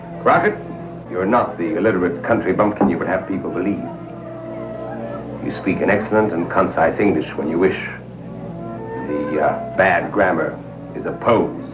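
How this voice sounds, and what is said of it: Plausible American accent. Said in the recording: “the South African-born Lawrence Harvey sounded plausibly American in ... The Alamo, where he played Colonel Travis”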